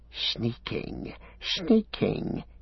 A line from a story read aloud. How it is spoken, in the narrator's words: he hissed